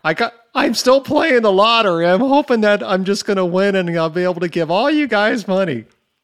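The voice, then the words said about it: Imitates another person's voice. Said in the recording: “my impersonation”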